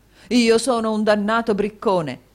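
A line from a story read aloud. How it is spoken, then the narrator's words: Exclamation. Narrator (Italian): esclamò il signor Mantalini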